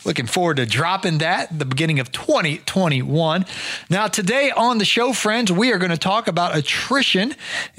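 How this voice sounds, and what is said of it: Slightly raspy voice. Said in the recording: “My voice getting a little raspy after recording the audiobook over the weekend.”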